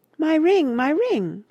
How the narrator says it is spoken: cries the lady's voice

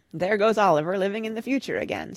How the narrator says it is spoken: said Father, laughing

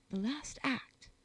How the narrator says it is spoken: whispered Carados

